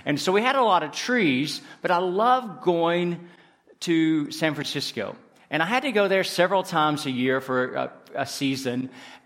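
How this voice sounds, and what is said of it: Southern US accent, East Tennessee. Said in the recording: “I'm from the southern part of the United States... you probably can tell from my accent... I'm from the South... East Tennessee and in the mountains”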